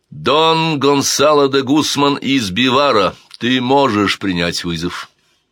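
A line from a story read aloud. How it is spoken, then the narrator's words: Loud announcement. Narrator (Russian): Король Педро I громко объявил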